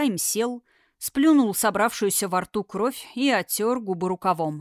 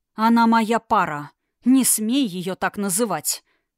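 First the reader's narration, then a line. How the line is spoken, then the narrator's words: Through clenched teeth. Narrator (Russian): процедил Эрисхайм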